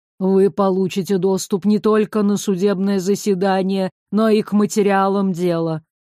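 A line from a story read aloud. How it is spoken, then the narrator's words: Flat lifeless voice. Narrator (Russian): мертвым голосом произнес Алеста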